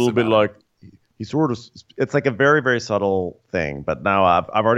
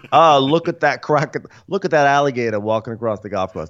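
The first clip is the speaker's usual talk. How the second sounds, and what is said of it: Put-on Northeastern US accent. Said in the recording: “I'm still doing a Northeastern accent for his Minnesota accent... this strange Northeastern thing”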